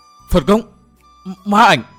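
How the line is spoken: Anguished group scream. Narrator (Vietnamese): Cả năm gã cơ hồ đồng thời rú lên thê thiết

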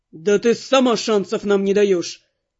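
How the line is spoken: Angry bark. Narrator (Russian): рявкнул вмиг обозлившийся Каст

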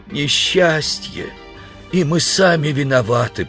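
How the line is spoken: Moan. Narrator (Russian): простонал человек

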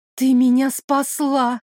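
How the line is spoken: Grateful breathy exhale. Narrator (Russian): с благодарностью выдохнула я

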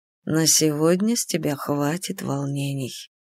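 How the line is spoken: Whispered in ear. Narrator (Russian): прошептал Амниус мне на ухо

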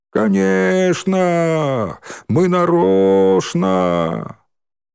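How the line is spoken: Pitiless group shouting. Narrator (Russian): Они кричали эти слова, и им совсем не было жалко Маргариты

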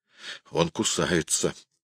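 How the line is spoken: Strained, fearful. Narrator (Russian): выдавил Люстенвюллер, с опаской

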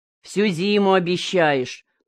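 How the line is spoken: Grumbling. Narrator (Russian): проворчал Никифор на Мункан

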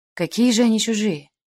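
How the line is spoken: Agitated, heavy sigh. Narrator (Russian): вскинулся сэр Энтони и тяжело вздохнул

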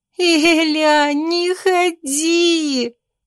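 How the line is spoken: Moaning. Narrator (Russian): простонала сестра

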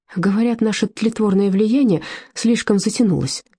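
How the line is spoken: Forced out through tears. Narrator (Russian): сквозь слезы выдавила Фрида

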